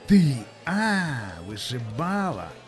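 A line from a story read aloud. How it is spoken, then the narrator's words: Hoarse wheeze. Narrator (Russian): прохрипел борзой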